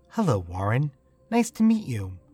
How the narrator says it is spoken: She smiled warmly and said

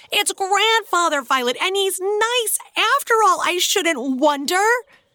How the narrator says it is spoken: shouting

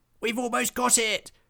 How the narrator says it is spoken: howled Willy the werewolf

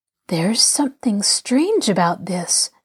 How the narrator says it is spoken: Nancy murmured

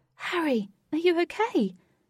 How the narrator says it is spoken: Katie desperately asked

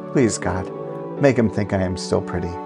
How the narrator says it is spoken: she whispered

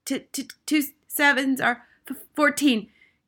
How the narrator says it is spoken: gasped Rupert

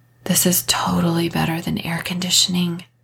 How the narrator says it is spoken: Kat whispered

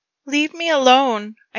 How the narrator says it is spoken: choked out

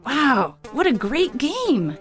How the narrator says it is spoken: exclaimed a lady

